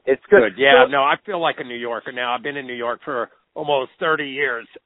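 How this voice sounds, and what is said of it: Oklahoma accent. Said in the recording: “I still have the Oklahoma accent”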